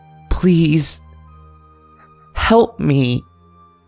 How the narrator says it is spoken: Her breath began to return in heaving gasps, whispering

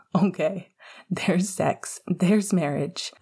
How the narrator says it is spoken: Pascal laughed

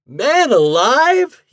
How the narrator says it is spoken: He cried

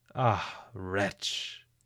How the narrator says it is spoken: said they

